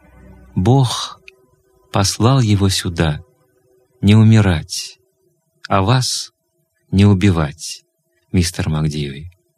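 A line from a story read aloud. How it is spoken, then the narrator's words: Gentle. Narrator (Russian): Лори мягко ответила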